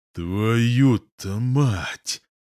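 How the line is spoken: Angry exclamation. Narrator (Russian): злобно восклицаю

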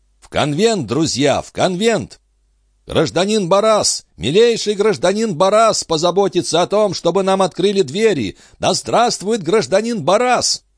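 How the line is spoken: Crowd shouting together. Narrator (Russian): Все зрители, которые встретили Бараса шиканьем, закричали разом

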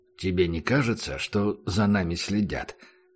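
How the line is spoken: Quiet question. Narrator (Russian): спросил Убер негромко

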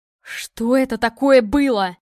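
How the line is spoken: Frantic yell, strange voice. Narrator (Russian): заорал Илья не своим голосом

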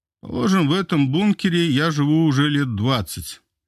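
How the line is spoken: Heavy sigh. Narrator (Russian): тяжело вздохнув, ответил барон

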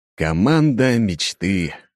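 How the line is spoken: Snorting. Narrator (Russian): хмыкнул я

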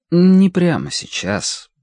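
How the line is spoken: Tired. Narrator (Russian): добавила она устало

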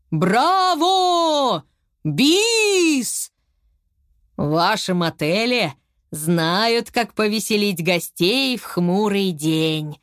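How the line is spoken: Joyful crowd shouting. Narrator (Russian): Зрители радостно закричали

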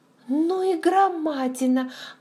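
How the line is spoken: Maid exclaiming. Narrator (Russian): воскликнула горничная

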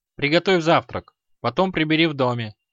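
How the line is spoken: Cold command. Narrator (Russian): она холодно приказала

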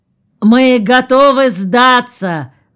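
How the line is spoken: Fearful shout. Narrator (Russian): закричал Мандриков в сторону улицы, боясь высунуться в окно

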